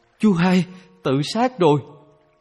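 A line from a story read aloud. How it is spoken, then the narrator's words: Terrified scream. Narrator (Vietnamese): có người kinh hoàng thét lên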